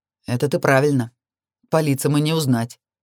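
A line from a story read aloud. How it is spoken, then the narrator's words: Grunting hmph. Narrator (Russian): хмыкнул он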